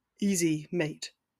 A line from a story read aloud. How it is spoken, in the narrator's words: Blaise mumbled quietly